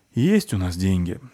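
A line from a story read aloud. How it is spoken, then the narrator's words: Sigh. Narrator (Russian): вздохнула Фаль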